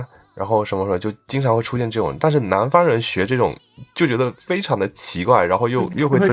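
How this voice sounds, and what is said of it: Usual voice. Nothing is said of it.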